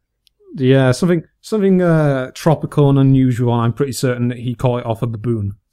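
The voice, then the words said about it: Northern English accent. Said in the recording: “your northern accent”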